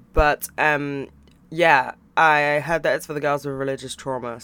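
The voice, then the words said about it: Croaky voice. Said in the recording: “I don't know why my voice is doing this... my voice is a bit croaky”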